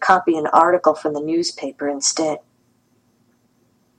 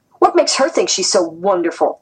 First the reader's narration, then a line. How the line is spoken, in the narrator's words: they sneered